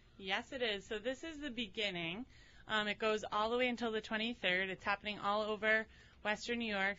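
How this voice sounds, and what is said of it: Slightly out of breath. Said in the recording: “I'm still a little bit out of breath”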